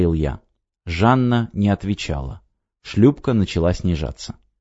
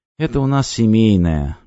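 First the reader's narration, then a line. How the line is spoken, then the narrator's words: Gloomy. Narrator (Russian): мрачно сказала Жанна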